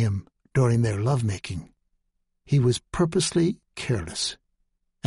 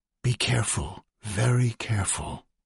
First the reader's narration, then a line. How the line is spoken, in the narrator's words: she whispered